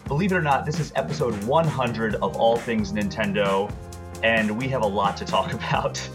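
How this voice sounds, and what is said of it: Strained, worn-out voice. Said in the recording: “Excuse my voice ... my voice is a little shot”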